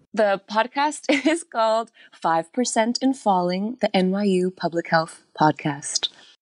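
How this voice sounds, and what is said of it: Polished podcast host voice. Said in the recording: “you put the podcast voice on and everything. ... that was a good podcast voice.”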